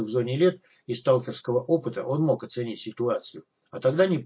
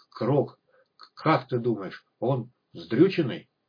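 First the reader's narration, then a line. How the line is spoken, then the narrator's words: Choked stunned strain. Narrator (Russian): Крокодайл, не менее огорошенный, балдевший, выдавил сквозь спазм в горле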